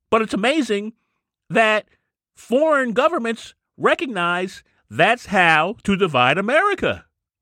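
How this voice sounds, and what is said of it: High-pitched, excited voice. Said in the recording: “Does my voice sound high? I got to calm down. I got to bring it down. Why am I so excited?”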